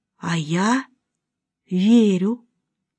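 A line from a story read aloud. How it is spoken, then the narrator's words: Involuntary whisper. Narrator (Russian): Помимо своей воли она прошептала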